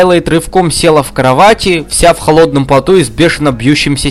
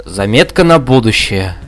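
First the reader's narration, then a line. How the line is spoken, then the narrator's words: Sighing. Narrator (Russian): вздохнула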